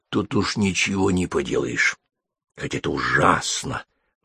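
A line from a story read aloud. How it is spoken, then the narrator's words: Meaningful whisper. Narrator (Russian): многозначительно прошептала она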